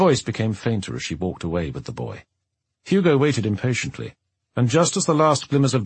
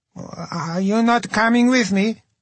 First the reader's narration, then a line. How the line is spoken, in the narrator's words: he asked, his voice sounding young and uneasy now